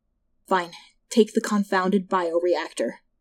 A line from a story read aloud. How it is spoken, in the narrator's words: Kimya sighed